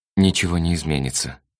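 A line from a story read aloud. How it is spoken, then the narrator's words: Sighing. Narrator (Russian): вздохнула Мура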